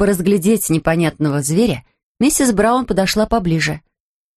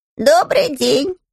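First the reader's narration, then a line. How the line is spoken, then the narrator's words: Thin ringing voice. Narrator (Russian): сказал он тонким звонким голоском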